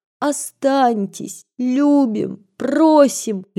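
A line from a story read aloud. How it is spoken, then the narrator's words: Sobbing girls babbling. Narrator (Russian): лепетали, всхлипывая девочки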